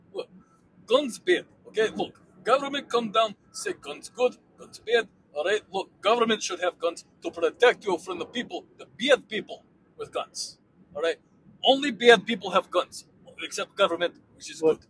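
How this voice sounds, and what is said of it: Put-on Russian accent. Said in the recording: “You're very convincing with the Russian Santa Claus ... anything is convincing in a Russian accent”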